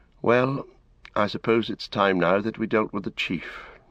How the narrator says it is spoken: Frodo said with a sigh

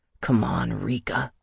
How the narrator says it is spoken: growled

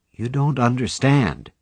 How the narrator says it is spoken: he said gently

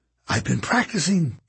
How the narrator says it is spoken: Kate whispered

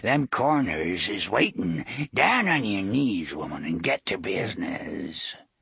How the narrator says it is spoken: Rhea croaked

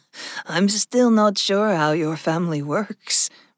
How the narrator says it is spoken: Vexa laughed

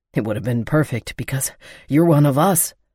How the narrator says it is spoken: Will panted

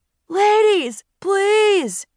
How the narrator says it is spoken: he pleaded

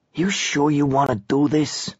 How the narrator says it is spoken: Gerald whispered

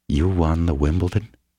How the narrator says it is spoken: She asked quietly

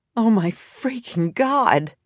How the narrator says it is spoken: exclaimed Jameson

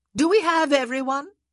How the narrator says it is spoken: the Viscountess called out

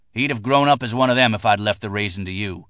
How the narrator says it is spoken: her husband said, his voice accusatory and contemptuous

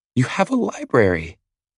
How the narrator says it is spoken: she exclaims

